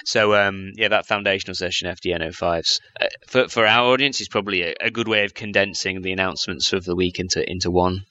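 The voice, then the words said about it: English accent. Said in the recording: “some crazy English accent”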